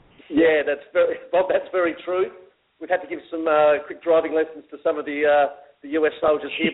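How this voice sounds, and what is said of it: Australian accent. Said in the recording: “the only difference I really noticed in Australia was what you mentioned, the accent”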